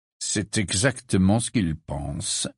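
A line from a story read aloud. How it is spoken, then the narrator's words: Plain. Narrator (French): dit Sirius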